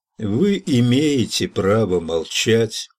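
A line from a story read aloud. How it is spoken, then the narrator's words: Cop, mechanical voice. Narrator (Russian): ответил коп все тем же механическим голосом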